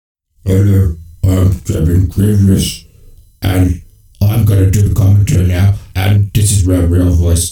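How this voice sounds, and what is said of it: Very deep male voice. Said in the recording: “He has a deep voice. ... that's his real voice. That's not put on.”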